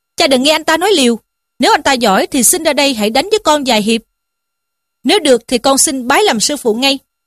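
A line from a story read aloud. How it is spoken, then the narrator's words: Angry, defiant. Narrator (Vietnamese): Thiếu niên nhất định không nghe, lại ra dáng tức giận mà rằng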